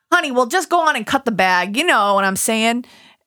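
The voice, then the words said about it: New York accent. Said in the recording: “You got to read it in your New York accent.”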